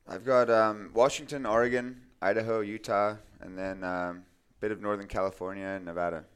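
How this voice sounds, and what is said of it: Mixed English, Australian, North American accent. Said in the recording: “that accent of yours ... it's a mix of England, Canada, Australia, East Coast, West Coast”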